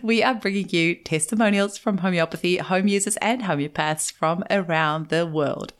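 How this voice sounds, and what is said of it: Mixed New Zealand-Australian accent. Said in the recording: “the mix of the Kiwi and Aussie accent ... I think the South African accent mixed in there somewhere as well”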